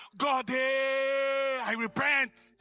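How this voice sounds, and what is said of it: African accent. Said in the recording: “that's when my African accent came out”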